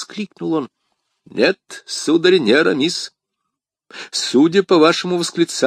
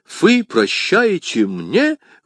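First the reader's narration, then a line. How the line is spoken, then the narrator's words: Exclaiming. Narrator (Russian): воскликнул Д'Артаньян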